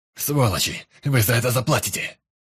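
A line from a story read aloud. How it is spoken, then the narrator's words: Angry bark. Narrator (Russian): Рявкнул Лэр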